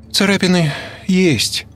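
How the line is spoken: Glum. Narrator (Russian): уныло произнесла Петухова

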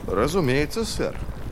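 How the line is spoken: Brisk reply masking doubt. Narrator (Russian): бодро ответил Вест, хотя в глубине души сильно в том сомневался

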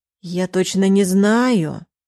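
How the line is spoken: Drawn-out mother. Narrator (Russian): протянула мама

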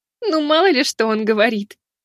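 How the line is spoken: Laughing young woman. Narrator (Russian): рассмеялась девушка

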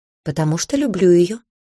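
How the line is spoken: Calm interruption. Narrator (Russian): спокойно перебил Шера Мертон

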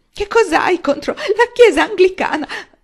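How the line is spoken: Sobbed. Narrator (Italian): aveva singhiozzato

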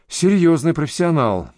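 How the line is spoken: Sigh. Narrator (Russian): вздохнул Райм

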